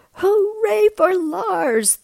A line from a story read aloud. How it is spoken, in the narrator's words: they cried